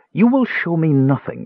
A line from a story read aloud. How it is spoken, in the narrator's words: LaDonna said, her voice shaking